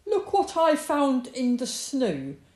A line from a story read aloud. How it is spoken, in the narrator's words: cried Fox, bursting in